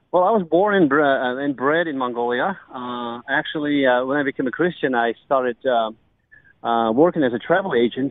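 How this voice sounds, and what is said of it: American-accented English. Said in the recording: “listeners will detect an American accent.”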